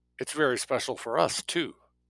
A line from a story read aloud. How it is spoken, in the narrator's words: Jake said